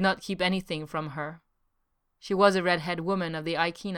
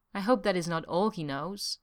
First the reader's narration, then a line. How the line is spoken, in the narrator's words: she said softly